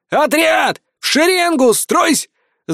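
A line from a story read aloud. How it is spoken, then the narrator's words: Straining yell. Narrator (Russian): заорал я, надрывая связки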